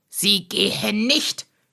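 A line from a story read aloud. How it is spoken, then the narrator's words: Snapped angrily, red-faced. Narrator (German): schnauzte Heiner Strohsack sie an und sprang mit hochrotem Kopf auf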